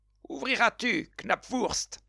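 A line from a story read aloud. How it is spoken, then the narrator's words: Exclaiming. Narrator (French): s'écria le piqueur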